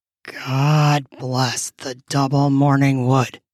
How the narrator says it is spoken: he said hoarsely

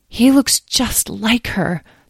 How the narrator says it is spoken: the woman breathed quietly to the man, Abner

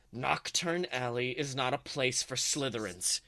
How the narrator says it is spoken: growls

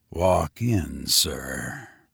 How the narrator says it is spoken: he said in a low tone

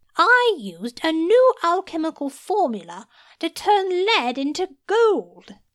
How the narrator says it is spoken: said triumphantly

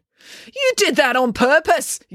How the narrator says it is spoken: yelled April

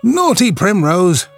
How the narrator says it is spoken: cried Cowslip, a child of 6 years old

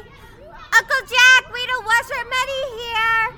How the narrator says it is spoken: I say in a big loud voice

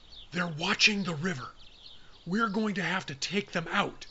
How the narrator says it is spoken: Will whispered

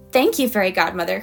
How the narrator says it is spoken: cried Elora Bean

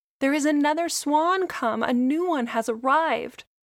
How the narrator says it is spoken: the rest were delighted ... shouting joyously

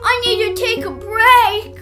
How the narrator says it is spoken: he yelled

